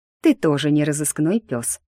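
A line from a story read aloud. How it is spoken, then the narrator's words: Snorted. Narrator (Russian): фыркнула я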